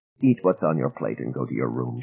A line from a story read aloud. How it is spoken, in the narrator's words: she mumbled